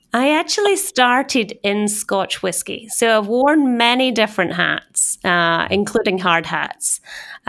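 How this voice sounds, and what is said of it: Scottish accent, no American twang. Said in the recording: “Definitely Scottish, haven't lost the accent, still there. No American twang”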